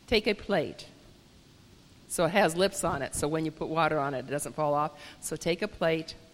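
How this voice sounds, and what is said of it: Hoarse, strained voice. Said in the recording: “I'm hoarse because I've been loud all week”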